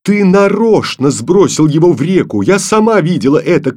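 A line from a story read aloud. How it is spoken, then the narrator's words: Angry shout. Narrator (Russian): крикнула Таня сердито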